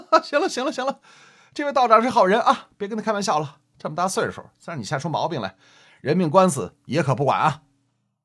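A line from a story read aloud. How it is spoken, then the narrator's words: Hearty laughter. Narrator (Chinese): 把这赵公子说的哈哈大笑，跟魏应勤说了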